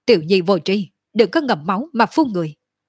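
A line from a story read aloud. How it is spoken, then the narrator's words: Angry. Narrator (Vietnamese): Cổ Trường Phong giận dữ nói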